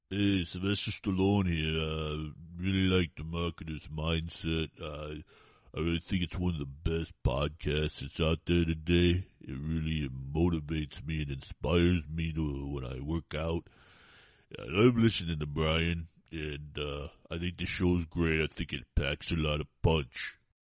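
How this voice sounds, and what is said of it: Sylvester Stallone impression. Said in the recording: “The following testimonial was done by a celebrity impersonator.”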